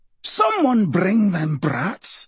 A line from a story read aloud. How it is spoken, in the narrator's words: growled Hamish